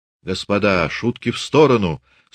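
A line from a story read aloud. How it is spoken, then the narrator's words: Stern interruption. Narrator (Russian): строго перебил Лесницкий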